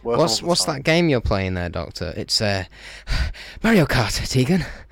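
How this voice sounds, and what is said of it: Breathless imitation of a character's voice. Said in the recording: “my fifth Doctor impression lately. It's really going down the shitter... It's just really out of breath.”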